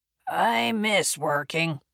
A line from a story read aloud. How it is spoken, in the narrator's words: the old captain grumbled loudly, his voice deepened by decades of after-lunch cigars